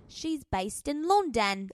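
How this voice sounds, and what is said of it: Poor put-on British English accent. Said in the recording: “Okay, that was terrible. ... Your English-British accent ... is very poor English accent. ... Yes, very poor.”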